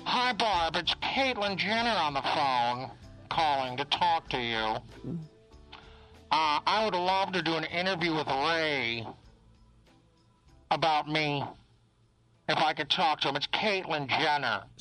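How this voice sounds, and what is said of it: Impression of Caitlyn Jenner. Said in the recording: “my Caitlyn impersonation ... I'm getting the impersonation down”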